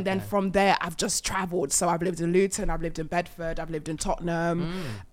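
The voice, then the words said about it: London accent. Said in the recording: “You definitely have the accent. You sound like very London.”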